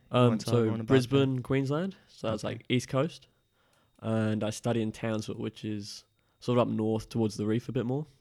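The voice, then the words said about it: Mixed English and Australian accent. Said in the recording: “accent ... It's a bit all over the place ... I got a little bit of English, a little bit of Australian accent.”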